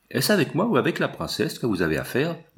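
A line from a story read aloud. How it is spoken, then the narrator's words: Plain. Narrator (French): dit Manfred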